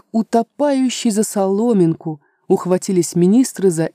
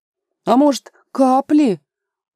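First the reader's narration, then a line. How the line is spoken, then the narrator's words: Timid interjection. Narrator (Russian): робко вставил какой-то безвестный лекарь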